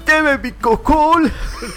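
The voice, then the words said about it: Stubborn old man voice. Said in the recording (Spanish): “suenas como viejito terco”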